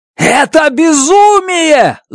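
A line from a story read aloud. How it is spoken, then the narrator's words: Shouting. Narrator (Russian): заорал я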